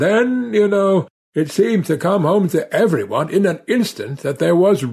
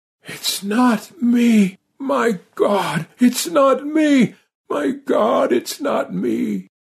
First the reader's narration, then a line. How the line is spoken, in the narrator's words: Parsket managed to gasp out